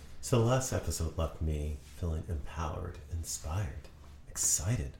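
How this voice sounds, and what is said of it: Flat monotone delivery. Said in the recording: “Obviously you could tell by my monotone voice.”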